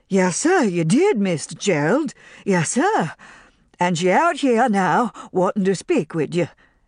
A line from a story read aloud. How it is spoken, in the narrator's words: answered Pork, giggling in excitement